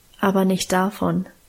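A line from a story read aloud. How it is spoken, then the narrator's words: Calm answer. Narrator (German): antwortete Guste ruhig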